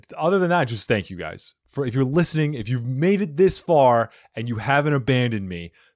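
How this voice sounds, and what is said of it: Usual voice. Nothing is said of it.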